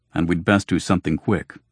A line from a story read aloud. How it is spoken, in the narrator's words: Hildegrin grumbled